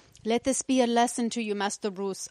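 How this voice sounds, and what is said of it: Failed Alfred-style accent, Khajiit-like. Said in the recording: “I don't know what accent that was... It was not British. I don't know what the fuck it was... I think it was Khajiit.”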